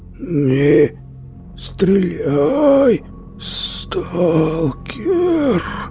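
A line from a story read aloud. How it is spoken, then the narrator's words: Hoarse creature. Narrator (Russian): Прохрипело существо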